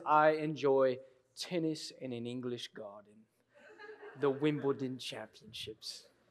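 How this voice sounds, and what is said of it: Put-on English accent. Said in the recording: “That's the best English accent I've got”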